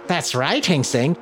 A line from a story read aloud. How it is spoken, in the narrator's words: cackled